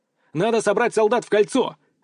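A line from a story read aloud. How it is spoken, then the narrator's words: Barked. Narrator (Russian): рявкнул я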